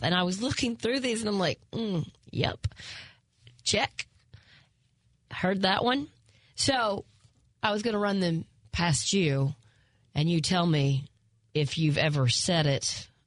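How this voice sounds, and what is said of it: Southern twang accent. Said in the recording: “you often make fun of my twang and teasing me from being in the South”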